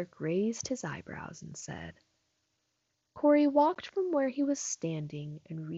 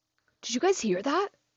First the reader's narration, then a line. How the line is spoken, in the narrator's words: Corey asked nervously